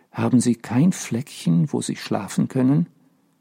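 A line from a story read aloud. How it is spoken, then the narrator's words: Soft voice. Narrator (German): sagte leise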